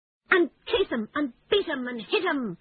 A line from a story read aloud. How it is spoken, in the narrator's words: cried the Toad, greatly excited